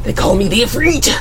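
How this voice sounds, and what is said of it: Over-the-top pro wrestler announcer voice. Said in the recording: “Do your wrestling voice in here. Do you do wrestling voice? You got one? ... We all have a wrestling voice!”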